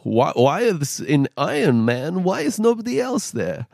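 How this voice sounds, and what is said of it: Jumbled mix of put-on accents. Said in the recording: “what was that accent? ... That's his impersonation of everyone. ... That was just an amalgamation of everyone that ever talked in different accents.”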